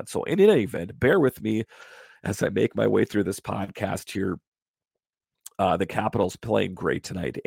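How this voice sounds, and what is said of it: Congested voice from a cold. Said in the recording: “I have a bit of a cold going on. It's my voice sounds a little bit off.”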